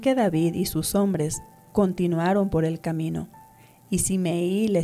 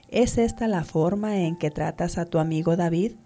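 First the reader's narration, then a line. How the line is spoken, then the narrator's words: Plain question. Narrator (Spanish): le preguntó Absalón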